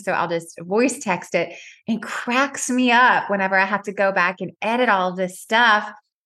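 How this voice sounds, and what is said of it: Southern accent, fast speech. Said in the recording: “my Southern accent, or I'm talking too fast ... it's your accent and you talk so fast”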